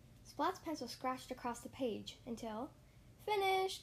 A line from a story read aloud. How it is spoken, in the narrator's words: he exclaimed